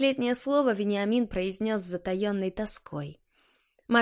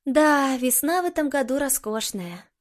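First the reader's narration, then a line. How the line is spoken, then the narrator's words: Sighing. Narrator (Russian): вздохнула Алена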